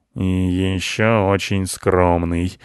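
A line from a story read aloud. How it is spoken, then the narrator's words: Gloomy. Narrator (Russian): добавил Рыжопиус мрачно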